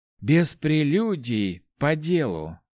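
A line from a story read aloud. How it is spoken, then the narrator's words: Rector's sigh. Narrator (Russian): вздохнул ректор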